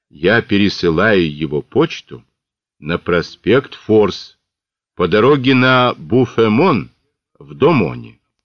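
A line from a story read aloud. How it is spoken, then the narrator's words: Plain. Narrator (Russian): ответила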